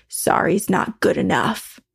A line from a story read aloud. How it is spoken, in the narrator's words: in a deeper, more gravelly voice, replied to himself